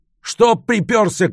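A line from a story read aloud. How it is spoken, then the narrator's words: Shouted. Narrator (Russian): крикнул Ярдов на Розова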